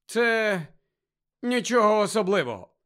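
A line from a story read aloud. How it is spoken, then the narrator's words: Grumble. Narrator (Ukrainian): буркнув Гаррі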